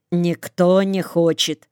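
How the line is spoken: Calm. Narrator (Russian): Говорю спокойно

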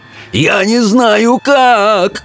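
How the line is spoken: Wailing howl. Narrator (Russian): взвыл Питер

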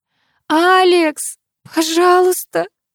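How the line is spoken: Shouting through tears. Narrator (Russian): Прокричала сквозь слезы

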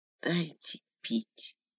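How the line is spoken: Whisper. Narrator (Russian): прошептала Лика

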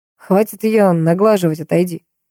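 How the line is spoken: Growling. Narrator (Russian): прорычал Микаэль

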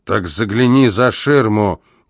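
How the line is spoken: Growling heavy man. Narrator (Russian): прорычал тучный полицейский

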